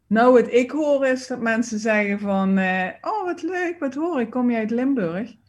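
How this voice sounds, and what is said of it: Limburg Dutch accent. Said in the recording (Dutch): “Je hebt een Limburgse accent”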